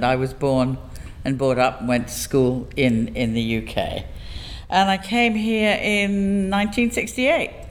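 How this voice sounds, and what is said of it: English accent. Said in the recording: “your lovely accent”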